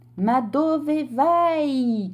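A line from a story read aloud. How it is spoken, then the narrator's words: Shouted. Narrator (Italian): gridò il signore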